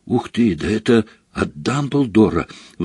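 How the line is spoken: Excited announcement. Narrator (Russian): взволнованно сообщил Гарри

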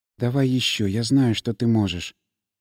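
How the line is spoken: Whispered. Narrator (Russian): сказав шепотом

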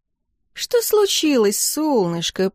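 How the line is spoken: Snide purr. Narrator (Russian): промурлыкала я, ехидно наблюдая

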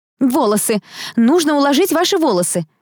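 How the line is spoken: Excited exclamation. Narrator (Russian): воскликнула Лаура, войдя в раж

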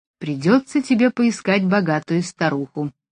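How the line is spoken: Cheerful. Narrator (Russian): весело сказала Джулия

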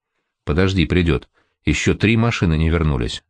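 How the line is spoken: Calm. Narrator (Russian): спокойно сказал Полынин

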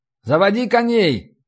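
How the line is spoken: Shouted down from above. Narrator (Russian): крикнул я с башни вниз

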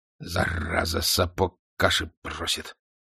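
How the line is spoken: Angry. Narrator (Russian): вместо приветствия сказал князь, сердито

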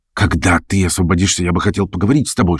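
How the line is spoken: Whisper. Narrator (Russian): шепнул он

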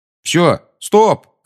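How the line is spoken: Shouted. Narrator (Russian): крикнул Гарри

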